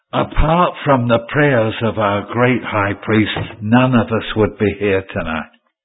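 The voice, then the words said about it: Raised, louder voice. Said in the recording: “I raise my voice”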